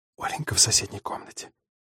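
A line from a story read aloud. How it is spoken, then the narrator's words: Whisper. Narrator (Russian): прошептала Варя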